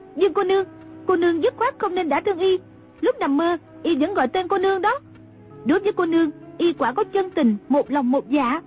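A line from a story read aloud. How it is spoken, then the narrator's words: Shouting. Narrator (Vietnamese): Trung Linh la lên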